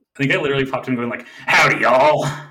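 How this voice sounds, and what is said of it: Cowboy voice. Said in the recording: “Cowboy Smog voice ... do a cowboy voice”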